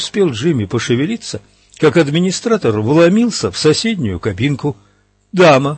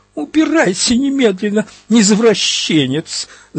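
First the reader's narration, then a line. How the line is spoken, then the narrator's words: Woman screaming. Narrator (Russian): завопила дама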